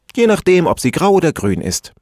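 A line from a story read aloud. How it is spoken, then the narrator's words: Laughing answer. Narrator (German): antwortete und lachte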